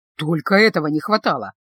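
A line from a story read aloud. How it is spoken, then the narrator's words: Grumbling. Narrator (Russian): проворчал он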